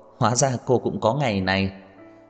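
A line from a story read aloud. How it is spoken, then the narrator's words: Loud laughter. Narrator (Vietnamese): Trần Mạn Hồng không nhịn được cất tiếng cười to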